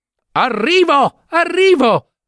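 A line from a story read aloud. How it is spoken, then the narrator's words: Shouting. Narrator (Italian): gridava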